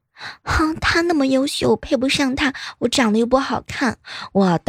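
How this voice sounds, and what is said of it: Sweet girlish voice. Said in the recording (Chinese): “一个甜美的声音说”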